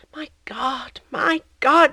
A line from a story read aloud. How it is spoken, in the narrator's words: sighed